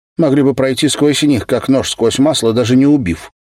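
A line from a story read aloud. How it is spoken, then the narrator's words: Hurried addition. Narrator (Russian): Последнюю фразу она уже торопливо добавила, заметив снисходительный взгляд Ерикана, обращенный к ней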